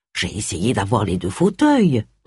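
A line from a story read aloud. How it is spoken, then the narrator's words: Murmured. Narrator (French): murmura Charles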